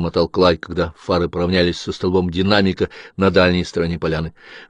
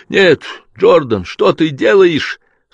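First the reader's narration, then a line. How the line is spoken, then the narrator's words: Crying out. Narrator (Russian): вскрикнул Том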